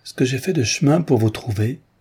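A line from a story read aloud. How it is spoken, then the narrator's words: Exclaimed. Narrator (French): s'écria-t-elle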